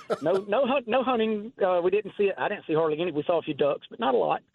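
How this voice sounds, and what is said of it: Noticeable accent. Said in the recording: “I hear your accent.”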